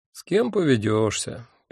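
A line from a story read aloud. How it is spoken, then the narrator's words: Sad statement. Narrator (Russian): печально констатировал я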